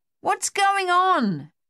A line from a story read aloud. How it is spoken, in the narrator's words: Dave yelled in Luther's ear